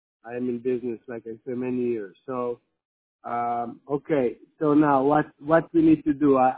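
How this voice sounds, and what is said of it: Israeli-accented English. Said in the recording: “I'm not American. You can hear my accent. I'm actually Israeli.”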